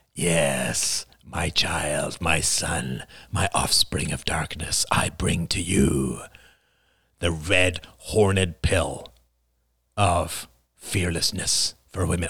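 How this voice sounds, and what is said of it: Strained demonic character voice. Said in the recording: “there's a demonic offer ... I can't do that voice for too long. I'm going to get a little hoarse”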